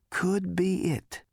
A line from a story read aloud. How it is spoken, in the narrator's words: wheezed Zaphod's between the whacking thuds